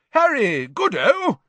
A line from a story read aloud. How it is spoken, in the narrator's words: said Bagman happily